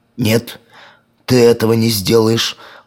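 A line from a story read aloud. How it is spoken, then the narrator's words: Agitated shout. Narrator (Russian): взволнованно закричал мумитроль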